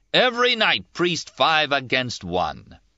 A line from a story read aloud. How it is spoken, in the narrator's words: shouted